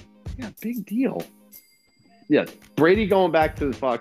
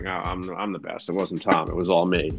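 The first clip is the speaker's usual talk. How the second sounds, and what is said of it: Bill Belichick impression. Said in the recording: “that Belichick impression ... I give it a 7. That was pretty solid ... that's pretty good”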